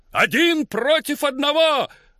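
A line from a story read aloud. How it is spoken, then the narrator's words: Shouting. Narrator (Russian): опять выкрикнул тот же голос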